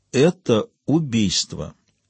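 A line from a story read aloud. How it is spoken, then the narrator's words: Slow, surprised. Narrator (Russian): медленно проговорила Ева, удивляясь собственным словам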